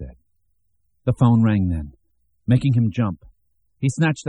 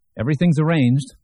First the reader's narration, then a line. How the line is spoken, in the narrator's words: Herb said cheerfully